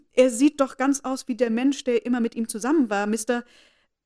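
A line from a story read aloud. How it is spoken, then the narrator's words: Calling out. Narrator (German): rief Kitty jetzt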